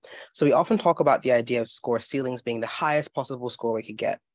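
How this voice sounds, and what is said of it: Sick-sounding voice. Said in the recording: “excuse my voice. I am quite sick. So if you get coughing fits and stuff, please do mind that.”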